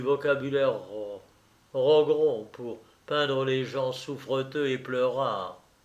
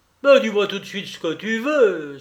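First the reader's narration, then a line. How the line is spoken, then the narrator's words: Brutal exclamation. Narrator (French): s'écriait brutalement Rogron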